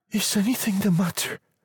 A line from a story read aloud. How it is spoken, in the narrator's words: she asked breathlessly